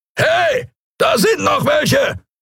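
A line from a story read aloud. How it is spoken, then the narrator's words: Roared. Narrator (German): brüllte eine Skria-Stimme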